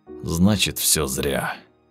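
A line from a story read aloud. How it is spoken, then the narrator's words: Hoarse, strained, exhausted. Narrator (Russian): прохрипел Волгин, поднимая очередной металлический ящик и едва держась на ногах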